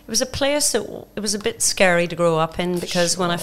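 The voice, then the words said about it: Northern Irish accent, Australian-tinged. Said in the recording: “Where is that funky, funky accent from? ... I'm from Belfast, Northern Ireland. ... But I've been in Australia for 32 years.”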